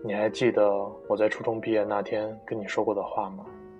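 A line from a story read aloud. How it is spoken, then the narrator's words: Detached, calm. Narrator (Chinese): 淡淡的说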